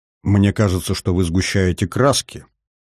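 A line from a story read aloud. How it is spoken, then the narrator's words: Quiet, thoughtful. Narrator (Russian): тихо произнес задумчивый Казер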